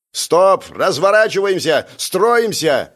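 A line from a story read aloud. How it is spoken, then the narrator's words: Shouted. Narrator (Russian): выкрикнул я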